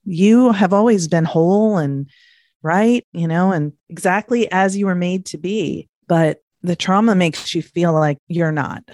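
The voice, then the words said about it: Emotional, voice wavering. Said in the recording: “I know you can see I'm getting emotional”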